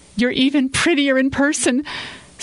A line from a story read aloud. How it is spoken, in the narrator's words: Samantha added nervously